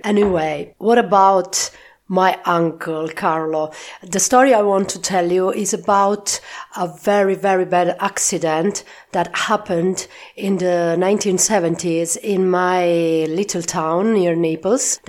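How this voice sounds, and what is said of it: Rough, strained unwell voice. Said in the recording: “Sorry for my voice, but I am fighting against laryngitis, so if my voice is not so beautiful, I'm very sorry”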